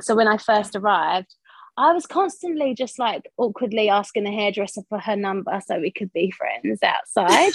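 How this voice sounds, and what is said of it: East London Essex English accent. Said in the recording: “as you can hear from my accent, I'm from East London, Essex”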